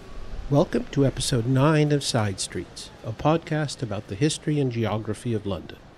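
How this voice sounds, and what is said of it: Speaks with a noticeable accent. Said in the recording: “Despite my accent”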